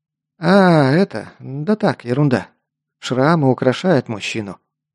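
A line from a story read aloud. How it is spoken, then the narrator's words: Forced joking tone. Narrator (Russian): попытался отшутиться Лок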